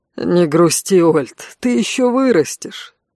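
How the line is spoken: Laughing, consoling. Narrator (Russian): смеясь утешил конт

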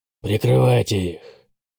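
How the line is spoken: Grumble. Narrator (Russian): проворчал Бэтрим

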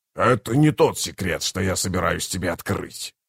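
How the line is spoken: Growled. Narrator (Russian): прорычал Кафал

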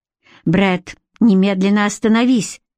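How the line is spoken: Through gritted teeth. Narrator (Russian): цедит она сквозь зубы

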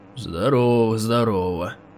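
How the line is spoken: Gloomy reply. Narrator (Russian): Мрачно отозвался он

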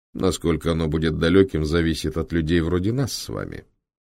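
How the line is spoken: Calm speech. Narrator (Russian): спокойно молвил

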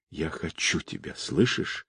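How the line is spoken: Passionate whisper. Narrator (Russian): шептала она между страстными поцелуями

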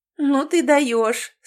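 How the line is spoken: Laughing. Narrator (Russian): сквозь смех высказала Сьюзан

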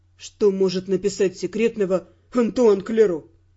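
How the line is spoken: Scornful snort. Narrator (Russian): фыркнул Эрл

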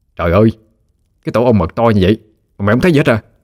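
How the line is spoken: Shouting. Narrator (Vietnamese): Hưng lắc đầu, nó la lên

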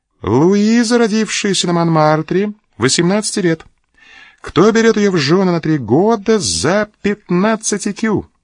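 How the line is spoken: Mocking agent's voice. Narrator (Russian): сказал агент компании насмешливым голосом

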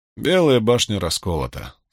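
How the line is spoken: Bored voice. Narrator (Russian): скучным голосом произнес Брин

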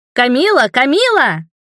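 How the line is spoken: Boys shouting. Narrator (Russian): закричали мальчишки с пирса

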